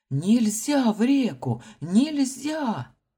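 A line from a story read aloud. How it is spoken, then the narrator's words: Shouting. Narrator (Russian): кричал капитан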